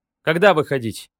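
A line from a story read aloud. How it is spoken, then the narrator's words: Plain. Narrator (Russian): спросил Аллен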